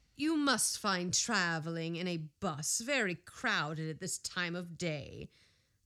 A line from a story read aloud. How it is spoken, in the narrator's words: half closed his eyes, and remarked in a tired tone